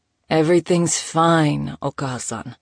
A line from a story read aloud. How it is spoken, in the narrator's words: Nico sighed